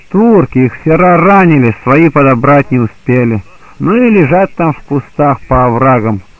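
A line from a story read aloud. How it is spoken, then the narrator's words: Plain. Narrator (Russian): ответили ей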